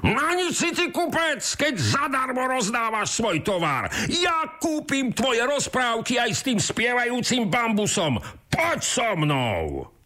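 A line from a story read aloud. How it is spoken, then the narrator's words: Shouting. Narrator (Slovak): kričí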